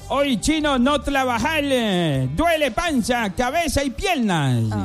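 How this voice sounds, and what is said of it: Put-on Chinese accent. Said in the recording (Spanish): “así como en acento de chinauta, de chino”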